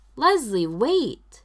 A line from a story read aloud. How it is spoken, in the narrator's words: Ben's shout